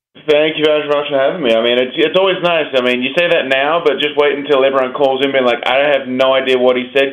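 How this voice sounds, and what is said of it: Distinctive foreign accent. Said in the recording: “your accent. This makes for wonderful radio ... somebody with a cool accent”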